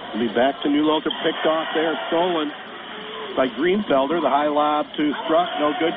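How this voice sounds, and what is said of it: Hoarse, strained voice. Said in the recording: “Hopefully my voice will hold in there. Got a little early bout of laryngitis here.”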